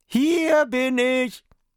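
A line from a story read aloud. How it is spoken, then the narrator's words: Joking call. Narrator (German): erlaubte es sich einen kleinen Scherz und rief den Wachen zu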